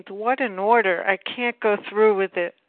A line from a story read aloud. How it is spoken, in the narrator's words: Many of us exclaimed